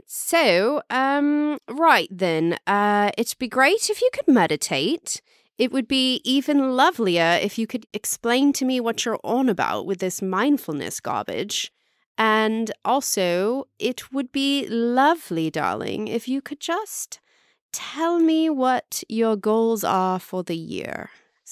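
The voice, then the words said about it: Put-on British accent. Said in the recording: “I love a British accent ... So I do a really good British accent, actually. I think I do. Let me just try it for a second.”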